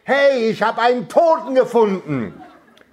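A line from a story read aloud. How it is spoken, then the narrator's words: Roaring louder than before. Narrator (German): brüllte abermals, aber noch lauter als zuvor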